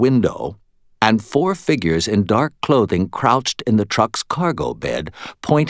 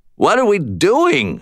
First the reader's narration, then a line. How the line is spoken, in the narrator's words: I shouted at him